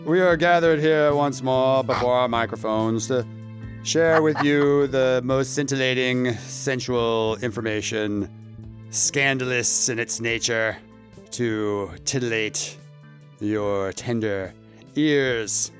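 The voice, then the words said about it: Mock preacher voice. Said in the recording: “preacher voice is very titillating”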